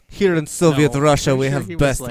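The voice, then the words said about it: Bad put-on Russian accent. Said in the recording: “I'm so bad with the Russian accent ... it's terrible”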